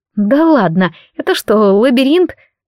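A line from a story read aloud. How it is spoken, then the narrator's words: Nervous laugh. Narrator (Russian): Несколько нервно рассмеялась я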